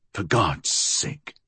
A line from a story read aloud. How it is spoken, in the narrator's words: he muttered